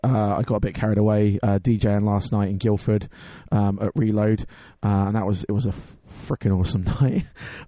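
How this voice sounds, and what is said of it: Hoarse, strained voice. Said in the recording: “my voice is a bit hoarse ... kind of blew my voice out a little bit”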